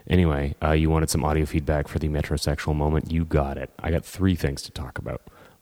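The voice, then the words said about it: Congested, deep radio-announcer voice. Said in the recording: “I've got a cold, so I've got a really good radio announcer voice”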